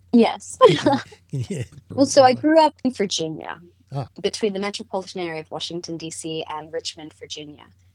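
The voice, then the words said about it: Anglicized American accent. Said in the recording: “you have mostly an American accent ... I have like a weird American English, like an anglicized American accent”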